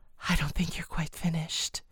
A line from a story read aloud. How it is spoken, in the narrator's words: she murmured